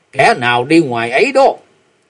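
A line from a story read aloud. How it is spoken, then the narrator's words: Sudden shout. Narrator (Vietnamese): bỗng nghe có tiếng quát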